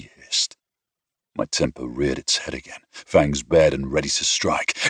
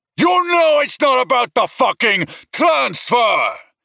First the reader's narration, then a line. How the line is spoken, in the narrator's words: He shouted back